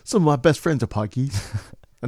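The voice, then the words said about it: Put-on British accent. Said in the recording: “Another great example of a British accent by yours truly... did a British person just walk into this room?”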